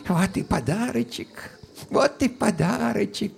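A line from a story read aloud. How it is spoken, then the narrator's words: Whisper. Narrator (Russian): прошептал Евсей Карпович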